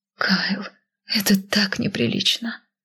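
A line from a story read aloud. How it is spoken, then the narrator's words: Breathed out. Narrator (Russian): выдохнула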